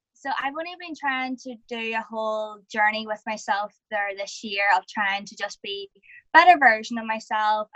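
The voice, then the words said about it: Irish accent. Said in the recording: “I'm over in Ireland, as you can probably tell by the accent.”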